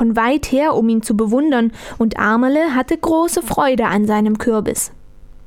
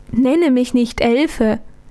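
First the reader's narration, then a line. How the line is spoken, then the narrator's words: Sweet laughing voice. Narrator (German): lachte mit lieblicher Stimme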